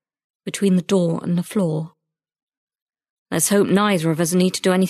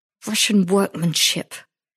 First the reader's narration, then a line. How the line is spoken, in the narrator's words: he said through gritted teeth